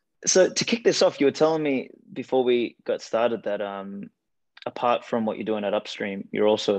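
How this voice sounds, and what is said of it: Faded Australian accent, somewhat British-sounding. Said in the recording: “no one ever picks that I'm from Australia. They're like, oh, your accent's kind of like British, it's kind of like this”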